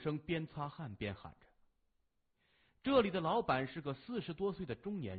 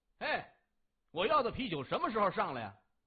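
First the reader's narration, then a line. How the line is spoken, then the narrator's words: Loud annoyed shouting. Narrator (Chinese): 仍有人不满的大声吆喝着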